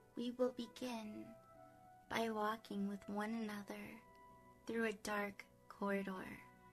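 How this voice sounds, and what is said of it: Sexy, seductive voice. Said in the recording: “my sexy voice”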